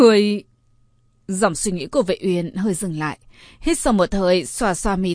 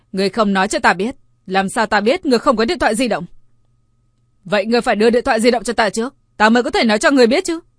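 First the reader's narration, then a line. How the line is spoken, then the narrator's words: Angry. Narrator (Vietnamese): Vệ Uyên giận dữ nói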